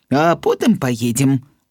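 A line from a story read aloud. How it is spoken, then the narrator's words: Plain. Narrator (Belarusian): адказаў тата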